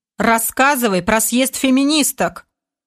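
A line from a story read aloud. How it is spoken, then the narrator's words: Stern demand. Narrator (Russian): Суровым тоном потребовал командор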